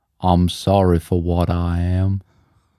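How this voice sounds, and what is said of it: Put-on American accent. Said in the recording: “Is that like a proper impression? ... definitely American ... is that just the only American accent that we can do? ... that does sound gumpy”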